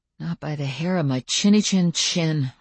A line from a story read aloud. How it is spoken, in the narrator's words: I muttered